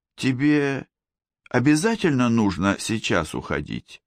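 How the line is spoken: Dejected question. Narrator (Russian): спросила она упавшим голосом

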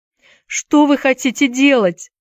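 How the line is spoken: Shouting. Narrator (Russian): закричал Уилл

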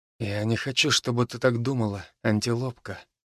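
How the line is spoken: Whisper. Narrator (Russian): прошептал я

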